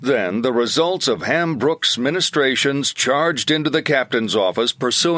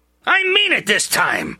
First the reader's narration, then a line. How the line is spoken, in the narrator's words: snarled